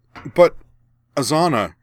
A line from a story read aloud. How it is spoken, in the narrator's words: Karana sputtered